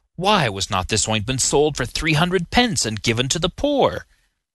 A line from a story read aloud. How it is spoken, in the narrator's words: Judas Iscariot, treasurer of the 12, but dishonest, avaricious, and small-souled in character, vented his grumbling complaint, saying